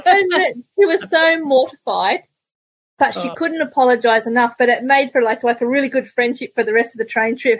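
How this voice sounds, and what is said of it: Strong Australian accent. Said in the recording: “In your strong Australian accent.”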